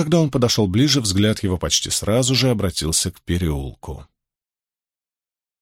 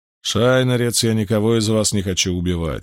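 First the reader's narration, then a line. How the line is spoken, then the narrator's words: Calm statement. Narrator (Russian): спокойно заявил Галлад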